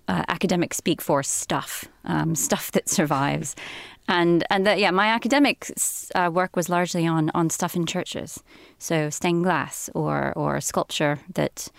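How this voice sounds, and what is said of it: American Southern accent. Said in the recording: “we can tell by your accent that you're not from around these parts ... So you're American? ... my family are from the American South, from Tennessee”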